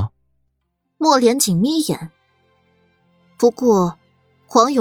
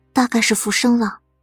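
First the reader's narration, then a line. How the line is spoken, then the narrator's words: Whispering. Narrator (Chinese): 苏黎凑近莫连锦的耳侧，压低了声音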